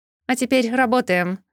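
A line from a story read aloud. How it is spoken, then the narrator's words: Barked. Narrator (Russian): рявкнула рыжая ехидна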